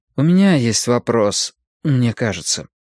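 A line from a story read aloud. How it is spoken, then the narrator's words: Uncertain, hesitant. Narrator (Russian): неуверенно сказал Мэтью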